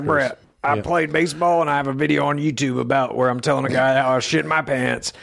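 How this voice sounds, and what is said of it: Imitates another person's voice. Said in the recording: “that voice you're doing? ... That's my George Brett.”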